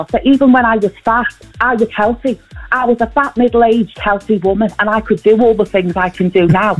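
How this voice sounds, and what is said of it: Close impression of Tina Malone. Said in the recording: “that an impression or is that AI? Because that sounds so close ... an impression of someone doing an impression of Vanessa Feltz, Tina Malone.”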